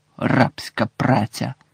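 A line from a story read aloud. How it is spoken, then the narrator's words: Gloomy mutter. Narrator (Ukrainian): Герміона похмуро вона пробурмотіла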